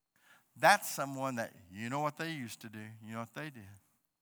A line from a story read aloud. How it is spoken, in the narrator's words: they were muttering